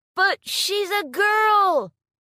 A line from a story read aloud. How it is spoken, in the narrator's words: One of the participants in the crowd shouted